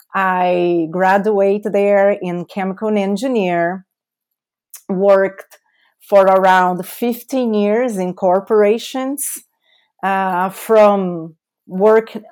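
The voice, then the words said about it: Brazilian-accented English. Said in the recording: “my beautiful accent, right? ... That's my beautiful accent is coming from Brazil”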